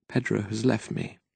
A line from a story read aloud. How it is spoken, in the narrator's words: she said in a broken voice